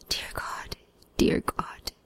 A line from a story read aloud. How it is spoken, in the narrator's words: the stricken face of the driver of the other car, a middle-aged man who kept shaking his head and muttering